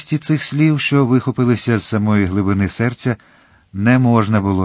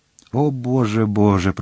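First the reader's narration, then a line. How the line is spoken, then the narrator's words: Moaning, teeth chattering with fear. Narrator (Ukrainian): простогнала королева, в якої зуби цокотіли від страху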